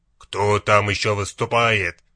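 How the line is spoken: Roared reply. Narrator (Russian): проревел тот в ответ

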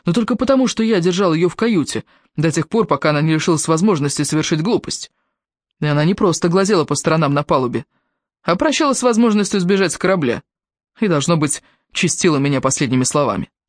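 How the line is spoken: Barking. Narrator (Russian): рявкнул Джеймс

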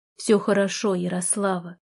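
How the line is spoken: Muffled, dull voice. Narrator (Russian): глухо сказал он

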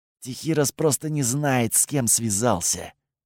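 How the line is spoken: Clipped through teeth. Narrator (Russian): процедил Готфред

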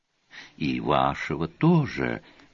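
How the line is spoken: Sigh. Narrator (Russian): вздохнул мастер Вала

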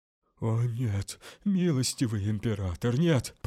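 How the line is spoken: Whisper. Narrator (Russian): прошептал Вурч

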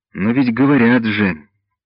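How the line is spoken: Sad. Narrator (Russian): печально произнес Вольфганг

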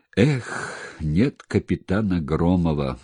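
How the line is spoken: Sigh. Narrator (Russian): вздохнул однажды Седых

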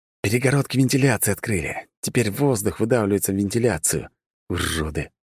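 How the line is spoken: Hissed. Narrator (Russian): прошипел я

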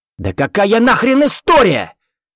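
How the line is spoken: Yelling despite pain. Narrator (Russian): заорал Виктор, не обращая внимания на взорвавшийся болью затылок

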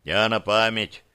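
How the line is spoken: Grumbling mutter. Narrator (Russian): пробурчал Славик

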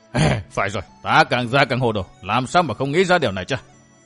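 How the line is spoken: Sudden realization, muttering. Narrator (Vietnamese): Thần toán đồng tàu vừa nghe vậy bèn sực tỉnh lẩm bẩm

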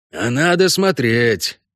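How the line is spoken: Sighing. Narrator (Russian): вздохнул Весемир

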